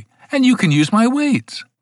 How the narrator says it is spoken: said Mavis eagerly

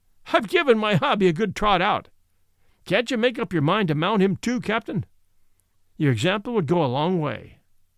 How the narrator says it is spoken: said the master, laughing

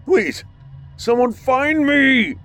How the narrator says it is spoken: He screamed as he felt the metal object slice into his stomach

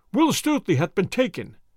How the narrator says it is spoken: cried they

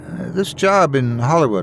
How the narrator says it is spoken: I asked Greta

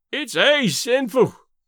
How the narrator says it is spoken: Davy moaned

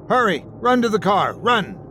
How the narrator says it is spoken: In Terran, he shouted to Mara and Jan

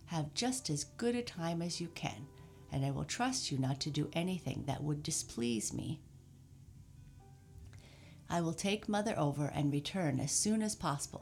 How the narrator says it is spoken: said Mr

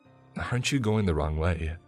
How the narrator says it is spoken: the mother asked in a shaky voice

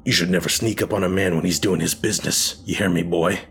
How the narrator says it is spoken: snarled, the veins in his face still throbbing angrily from exertion

